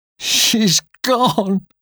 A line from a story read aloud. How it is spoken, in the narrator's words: sobbed Katie